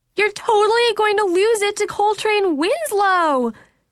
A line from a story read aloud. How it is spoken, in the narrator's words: Logan was shrieking into the phone, loud enough for my mom to hear